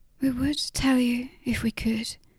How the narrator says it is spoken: Jan said softly

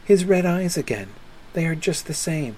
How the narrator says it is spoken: suddenly Lucy murmured, as if to herself

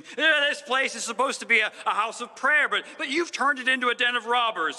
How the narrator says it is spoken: he screams

